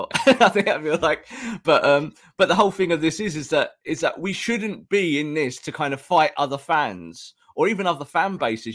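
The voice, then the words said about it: Hoarse, strained voice. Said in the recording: “you're losing your voice there. ... I'm losing my voice. I've been losing my voice for months”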